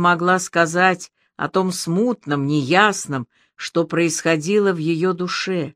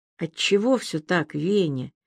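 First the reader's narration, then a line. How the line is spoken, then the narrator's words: Quiet question. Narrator (Russian): тихо спросила она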